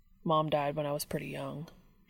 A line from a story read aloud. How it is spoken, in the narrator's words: he said quietly